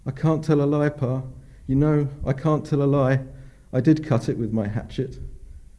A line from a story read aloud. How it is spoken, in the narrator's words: After a moment's hesitation, the boy bravely cried out